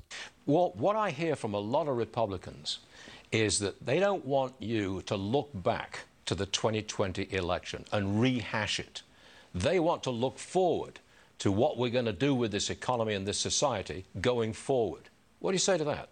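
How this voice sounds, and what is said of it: Very posh accent. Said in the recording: “his very posh accent”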